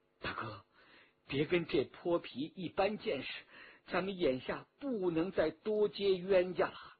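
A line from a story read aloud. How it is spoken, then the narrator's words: Low coaxing voice. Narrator (Chinese): 少妇低声劝着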